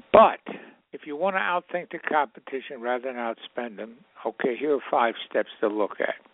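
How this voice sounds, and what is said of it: Hoarse voice. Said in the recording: “my voice. I'm a bit hoarse.”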